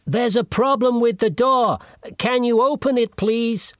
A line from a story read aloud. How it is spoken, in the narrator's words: shouted